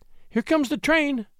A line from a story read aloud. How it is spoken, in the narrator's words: cried she